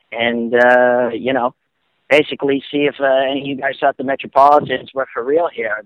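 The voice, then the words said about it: Thick Boston-area accent. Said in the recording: “Sounds like an extra from the town ... I understood like 30% of that with that gorgeous accent ... Dorchester”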